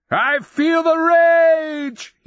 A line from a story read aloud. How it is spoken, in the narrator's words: roared